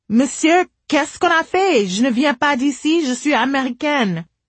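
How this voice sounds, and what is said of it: Poor, heavily accented French. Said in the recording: “I spoke up in my worst French accent.”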